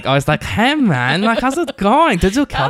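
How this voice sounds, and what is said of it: Imitation of a TV character's voice. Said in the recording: “That's a really good impression.”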